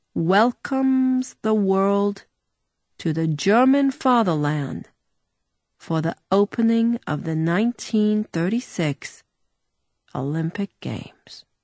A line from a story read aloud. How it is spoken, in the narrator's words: he translated slowly